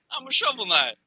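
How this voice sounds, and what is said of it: Video game character voice impression. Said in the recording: “That's my Shovel Knight impression.”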